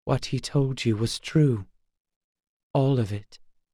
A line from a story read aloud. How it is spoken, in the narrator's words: the prince said, as softly as though they were in chapel